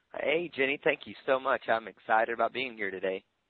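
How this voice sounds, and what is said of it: American southern accent. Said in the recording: “I'm hoping all the Brits over here will understand your accent. ... I know this southern accent can be difficult”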